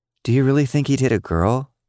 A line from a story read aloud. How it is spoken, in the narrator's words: Emmy asked